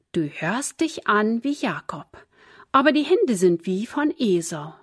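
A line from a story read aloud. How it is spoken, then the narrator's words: Plain. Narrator (German): sagte Isaak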